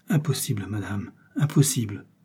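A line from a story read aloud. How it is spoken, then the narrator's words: Conflicted murmur. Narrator (French): murmura Felton, qui sentait au fond du cœur la justesse de cet argument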